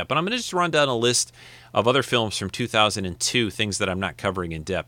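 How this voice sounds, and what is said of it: Gravelly, scratchy voice. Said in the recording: “my voice is a little grovelly or scratchy today.”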